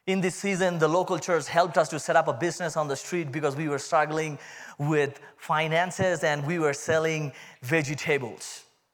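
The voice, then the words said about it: Indian accent. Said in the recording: “That's my Indian accent coming out.”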